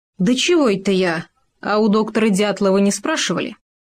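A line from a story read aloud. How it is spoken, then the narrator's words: With a sudden chuckle. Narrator (Russian): медведь, неожиданно хохотнув, произнес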